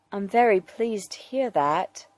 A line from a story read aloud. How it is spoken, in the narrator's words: Alfred says gently